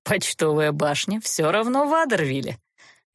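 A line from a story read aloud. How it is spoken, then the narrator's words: Mocking. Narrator (Russian): насмешливо напомнил Геверт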